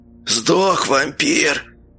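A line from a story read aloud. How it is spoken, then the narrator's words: Hoarse wheeze. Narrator (Russian): прохрипел кто-то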